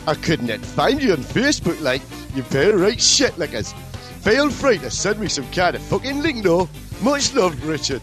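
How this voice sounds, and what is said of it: Put-on Geordie accent. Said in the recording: “I should have done this in a Geordie accent.”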